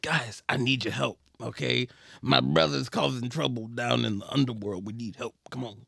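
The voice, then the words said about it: Beetlejuice character impression. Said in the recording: “my Beetlejuice impression.”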